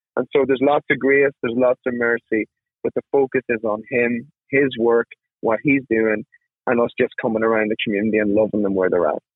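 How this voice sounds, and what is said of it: Irish accent. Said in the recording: “know that accent. ... He's not from North Mississippi. He is from Ireland.”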